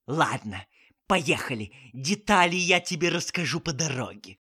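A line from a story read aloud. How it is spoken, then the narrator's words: Aunt hissing. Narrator (Russian): прошипела тетушка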